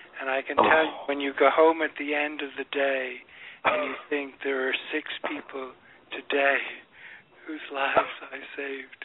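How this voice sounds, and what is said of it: Emotional voice. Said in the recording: “I'm getting a bit emotional here”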